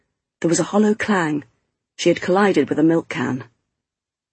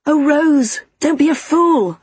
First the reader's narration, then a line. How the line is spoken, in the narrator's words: I cried